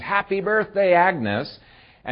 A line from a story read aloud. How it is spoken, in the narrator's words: everybody jumps up and screams